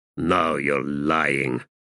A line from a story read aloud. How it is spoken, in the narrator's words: Callum said in a growl